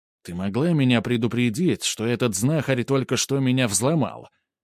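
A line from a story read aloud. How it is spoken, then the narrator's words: Rather angry. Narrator (Russian): Он довольно злобно обратился к Зине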